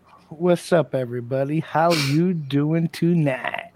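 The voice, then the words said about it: Nasal smooth cartoon character voice. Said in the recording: “silky, smooth, sexy voice ... hitting us with that Quagmire voice ... It's like I'm talking with my nose plugged”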